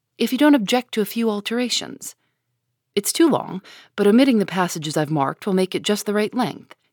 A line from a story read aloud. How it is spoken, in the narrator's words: he said, in a businesslike tone